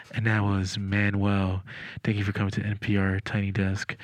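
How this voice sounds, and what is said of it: Imitates NPR presenter voice. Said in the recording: “that's exactly how they talk on that. That was such really a good impression. ... Close. They get really close.”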